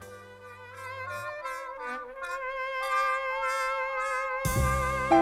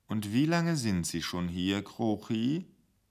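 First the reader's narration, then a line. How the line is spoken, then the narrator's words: Soft gentle voice. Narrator (German): die Stimme des Intendanten so sanft wurde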